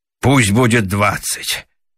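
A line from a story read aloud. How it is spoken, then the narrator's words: Sigh. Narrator (Russian): вздохнул Раменс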